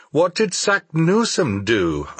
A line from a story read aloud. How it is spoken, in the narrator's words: I exclaimed